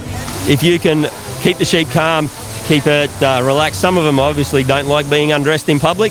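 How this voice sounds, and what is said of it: Australian accent. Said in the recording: “if you haven't guessed by his accent, he's a fellow Australian”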